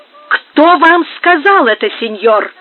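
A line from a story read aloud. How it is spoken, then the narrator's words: Hot-tempered exclamation. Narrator (Russian): воскликнул запальчиво Пригонеро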